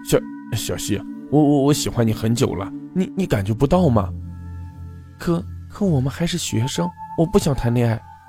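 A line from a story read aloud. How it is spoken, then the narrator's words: Embarrassed stammering. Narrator (Chinese): 他脸一红，结结巴巴地说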